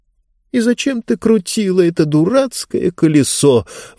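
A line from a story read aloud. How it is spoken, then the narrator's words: Exasperated exclamation. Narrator (Russian): воскликнула Диба в сердцах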